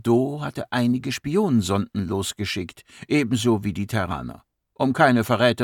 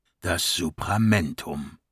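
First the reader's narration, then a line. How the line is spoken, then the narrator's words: Murmur. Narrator (German): murmelte Godabi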